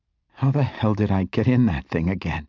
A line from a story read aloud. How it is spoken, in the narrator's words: she asked, her voice shaking